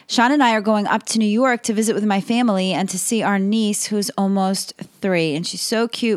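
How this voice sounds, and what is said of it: Slightly strained, sore-throat voice. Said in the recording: “I have a bit of a sore throat”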